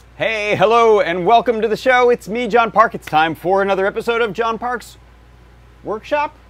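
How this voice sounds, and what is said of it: Voice affected by a cold. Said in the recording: “as you can probably hear from my voice, I had a little cold”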